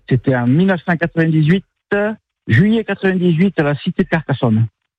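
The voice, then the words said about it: Slight regional French accent. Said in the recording (French): “D'où le petit accent.”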